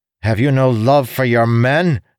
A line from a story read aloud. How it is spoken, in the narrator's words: Elokar snapped